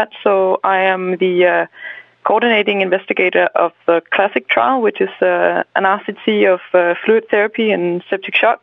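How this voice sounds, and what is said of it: Danish Scandinavian-accented English. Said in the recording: “my first language is Danish, so please bear over with me for my Scandinavian accent”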